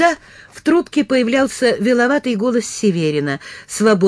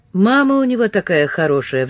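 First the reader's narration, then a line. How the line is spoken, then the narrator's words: Heavy sigh. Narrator (Russian): вздохнул тяжко Ливан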